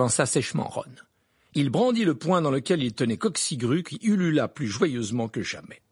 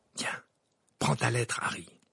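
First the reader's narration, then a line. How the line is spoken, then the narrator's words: Added in undertone. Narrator (French): ajouta Ron à mi-voix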